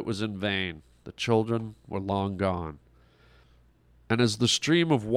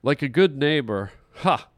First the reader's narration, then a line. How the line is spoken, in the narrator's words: He laughed to himself